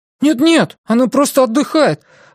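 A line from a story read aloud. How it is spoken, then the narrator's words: Exclamation. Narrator (Russian): воскликнул Илари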